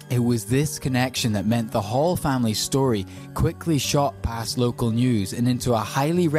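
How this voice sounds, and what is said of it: Usual voice. Nothing is said of it.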